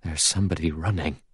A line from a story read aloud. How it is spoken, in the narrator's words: He said in an odd, scared voice